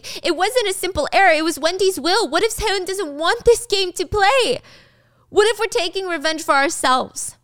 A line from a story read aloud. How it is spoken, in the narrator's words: he's screaming